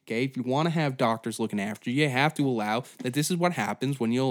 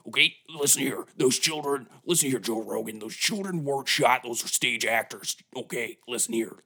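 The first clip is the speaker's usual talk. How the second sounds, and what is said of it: Imitates another person's voice, poorly. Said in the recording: “not a good Alex Jones impression”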